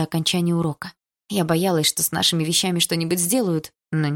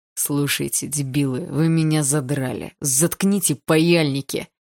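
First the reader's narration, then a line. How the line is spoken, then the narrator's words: Growled. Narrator (Russian): прорычал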